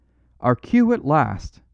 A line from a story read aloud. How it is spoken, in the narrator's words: cried Valentin